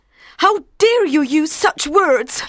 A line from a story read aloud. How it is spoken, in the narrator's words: she cried, with a flash of anger